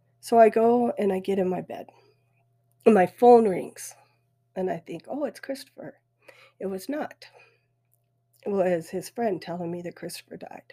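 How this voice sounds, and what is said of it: Weepy, emotional voice. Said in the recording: “you can hear it in my voice ... I get weepy”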